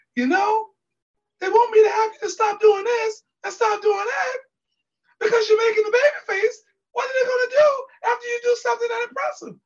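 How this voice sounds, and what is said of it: Imitates another person's voice. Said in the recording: “my Arn Anderson impression”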